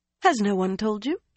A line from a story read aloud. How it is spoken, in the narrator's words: she asked, too brightly